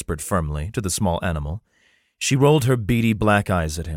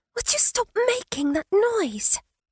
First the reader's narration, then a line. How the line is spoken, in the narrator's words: came a whisper